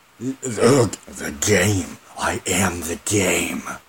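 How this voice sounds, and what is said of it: Poor imitation of another person's voice. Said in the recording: “terrible Triple H impression”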